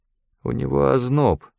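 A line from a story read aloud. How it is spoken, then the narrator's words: Gloomy. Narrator (Russian): мрачно сказал Талер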